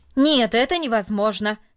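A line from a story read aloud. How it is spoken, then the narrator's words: Loud and firm. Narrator (Russian): сказал он, наконец, громко и твердо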